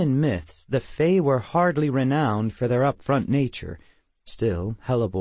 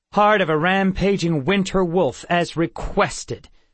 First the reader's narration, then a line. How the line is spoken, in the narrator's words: Crystal snapped